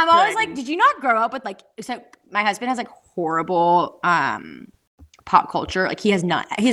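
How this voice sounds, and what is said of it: Usual voice. Nothing is said of it.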